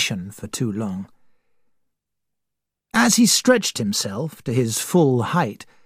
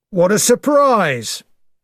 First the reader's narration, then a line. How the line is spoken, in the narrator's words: cried